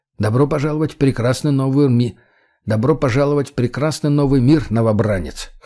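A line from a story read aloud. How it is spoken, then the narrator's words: Wry snort. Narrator (Russian): хмыкнул я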